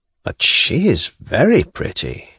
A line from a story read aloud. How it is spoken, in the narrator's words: he went on in an undertone, as though addressing Pseldonimov only, though intentionally speaking so that the bride could hear